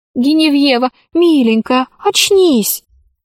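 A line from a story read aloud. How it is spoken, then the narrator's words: Pleading. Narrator (Russian): взмолилась Алиса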